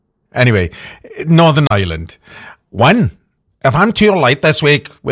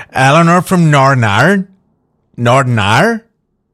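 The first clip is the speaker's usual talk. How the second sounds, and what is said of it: Attempted Northern Irish accent. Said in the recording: “She's trying to teach me how to do an Irish accent. And I don't know what I'm doing here.”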